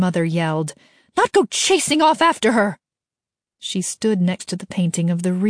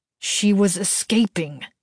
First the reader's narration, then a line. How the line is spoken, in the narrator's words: he said through clenched teeth